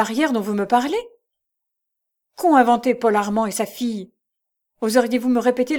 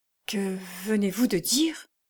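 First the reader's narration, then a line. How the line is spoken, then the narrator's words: Barely audible question. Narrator (French): demanda-t-elle d'une voix à peine distincte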